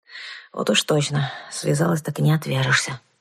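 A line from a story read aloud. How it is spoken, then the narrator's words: Grumbled. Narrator (Russian): проворчала я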